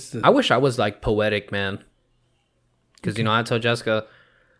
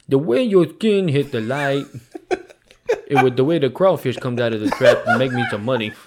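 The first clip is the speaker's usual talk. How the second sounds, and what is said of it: Put-on Louisiana accent. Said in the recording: “I should have did a Louisiana accent.”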